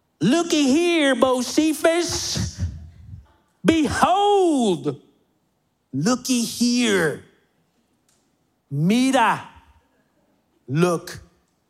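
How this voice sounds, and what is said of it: Country preacher twang. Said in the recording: “a country sounding preacher at that country twang ... I should talk in a country accent”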